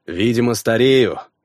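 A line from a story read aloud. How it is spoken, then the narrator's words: Muttering under breath. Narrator (Russian): пробурчал себе под нос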